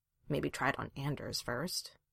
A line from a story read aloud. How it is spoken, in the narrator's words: muttered